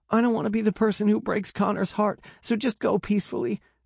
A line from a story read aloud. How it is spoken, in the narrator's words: she chokes through her sobs